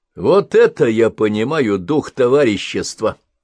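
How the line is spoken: Accusing tone. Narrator (Russian): продолжал он обличающим тоном

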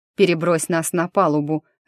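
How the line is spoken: Barked. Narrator (Russian): рявкнул Диего

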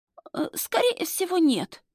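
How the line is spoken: Feigned sick wheeze. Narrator (Russian): снова хрипит девушка, делая вид, что больна

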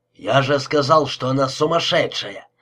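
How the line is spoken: Angry shout. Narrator (Russian): закричал Фуэнтес со злостью

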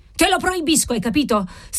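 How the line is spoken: Exasperated old man shrieking. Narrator (Italian): strillò alla cameriera il vecchio marchese, così esasperato che le mani gli tremavano

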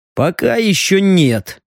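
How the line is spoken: Snorting hmph. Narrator (Russian): хмыкнул Леха

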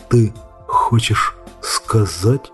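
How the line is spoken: Whisper. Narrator (Russian): прошептал Сэм

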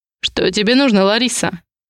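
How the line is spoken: Rude. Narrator (Russian): грубо отвечаю я

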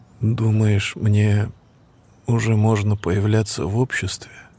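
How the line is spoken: Uncertain, hesitant. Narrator (Russian): Неуверенно произнес Мартин

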